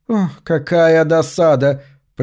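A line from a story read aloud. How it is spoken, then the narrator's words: Through gritted teeth. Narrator (Russian): процедила Кассандра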